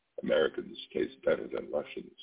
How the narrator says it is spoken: she murmured

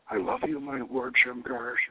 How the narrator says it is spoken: she whispers

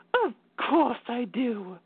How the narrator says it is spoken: she hissed with fury

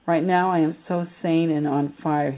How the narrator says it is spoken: he says

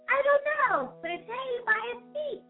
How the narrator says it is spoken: chirped Flitter

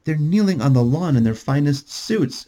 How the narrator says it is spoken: she called out to Patty

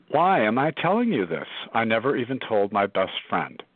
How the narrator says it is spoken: exclaim

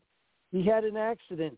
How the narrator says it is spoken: Puppy said

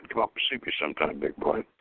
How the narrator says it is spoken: she said in a suggestive tone that reminded him of Mae West's famous line

